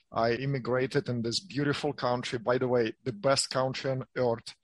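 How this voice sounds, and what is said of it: Non-native English accent. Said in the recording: “as you can hear from my accent, I'm not from here.”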